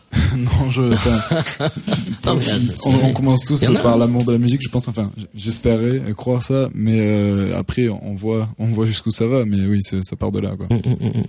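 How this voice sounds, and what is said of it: French with a slight English accent. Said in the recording (French): “C'est quoi ce drôle d'accent que t'as? ... Moi, je suis né en Angleterre ... Oui, ça sonne un peu comme ça.”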